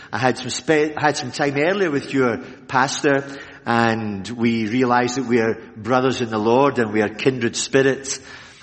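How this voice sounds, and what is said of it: Scottish Glaswegian accent. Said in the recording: “a Scottish accent as it really sounds ... I was born in Glasgow ... I'm still a Glaswegian from head to toe. I've never changed my accent”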